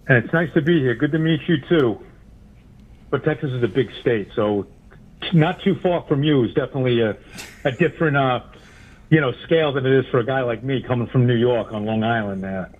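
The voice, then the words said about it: New York Long Island accent. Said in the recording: “Yeah, I can tell by the accent. ... Yep, there it comes out. ... I have a very identifiable voice.”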